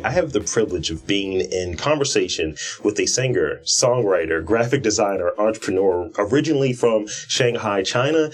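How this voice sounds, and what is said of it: Polished radio announcer voice. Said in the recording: “you really have a radio voice, though. ... I've worked on it. Notice it changed as soon as the microphone came on.”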